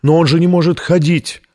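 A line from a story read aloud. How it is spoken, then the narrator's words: Sobbing. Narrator (Russian): рыдала фрау Колер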